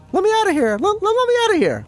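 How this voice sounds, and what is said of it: Imitates a trapped ghost's voice. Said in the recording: “The guy in the coffin that goes ... That's my best impression.”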